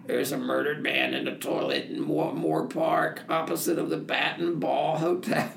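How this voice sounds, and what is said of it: Hoarse rough-voiced impression. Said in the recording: “a man with a hoarse voice said ... I like your impression.”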